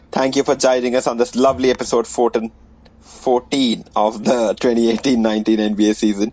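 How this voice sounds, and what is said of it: Put-on Indian accent. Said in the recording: “your favorite NBA podcast in an Indian accent”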